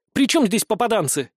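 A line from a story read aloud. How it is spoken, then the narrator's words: Sudden angry exclamation. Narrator (Russian): с неожиданной злостью в голосе воскликнула Иса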